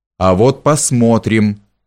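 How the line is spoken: Loud, angry. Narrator (Russian): громко ответил Людвиг и, разозлившись

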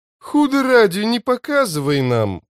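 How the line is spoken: Exclaiming. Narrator (Russian): воскликнул Мурилью

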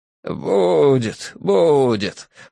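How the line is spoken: Creaky rasp. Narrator (Russian): проскрипел он

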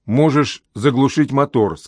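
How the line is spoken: Plain. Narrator (Russian): сказал он

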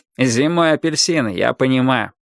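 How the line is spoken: Snorting. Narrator (Russian): хмыкнул Лёша

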